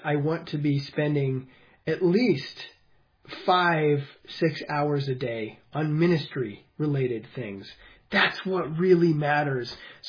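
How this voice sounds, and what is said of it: Tired, worn-out sounding voice. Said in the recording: “You can probably hear it in my voice. I'm a little burnt out”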